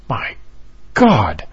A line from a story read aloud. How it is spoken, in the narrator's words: Oliver exclaimed